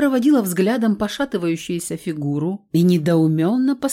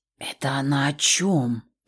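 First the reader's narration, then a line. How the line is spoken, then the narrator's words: Whispered question. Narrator (Russian): Почему-то шепотом спросила я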